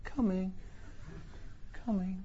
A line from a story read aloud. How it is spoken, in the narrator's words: Dick Lucas said sadly